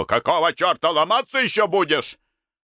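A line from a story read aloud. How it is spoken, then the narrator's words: Yelling. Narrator (Russian): заорал на него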